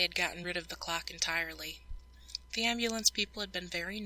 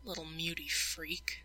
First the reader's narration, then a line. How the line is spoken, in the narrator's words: another had muttered, not caring Sydney was near enough to hear him